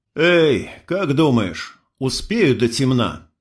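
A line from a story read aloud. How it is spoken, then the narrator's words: Sigh. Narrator (Russian): вздохнул я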